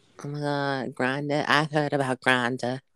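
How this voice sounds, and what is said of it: Put-on Southern Belle accent. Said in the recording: “you got this Southern Belle type accent going on”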